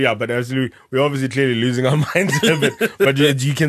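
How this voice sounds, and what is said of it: Usual voice. Nothing is said of it.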